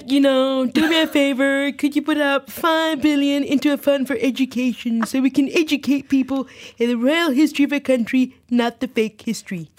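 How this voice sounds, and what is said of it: Decent Donald Trump impression. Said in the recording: “the Trump voice ... That wasn't bad”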